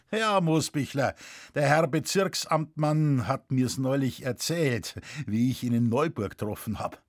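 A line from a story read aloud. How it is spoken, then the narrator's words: Laughing. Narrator (German): Vater lachte und sagte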